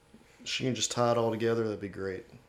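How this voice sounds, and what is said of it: Brief put-on Southern accent. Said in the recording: “your Southern accent randomly came out for that one”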